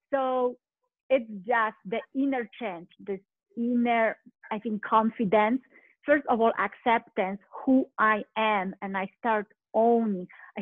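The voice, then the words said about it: Foreign accent in English. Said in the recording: “I start owning my accent, like, oh well, I have accent”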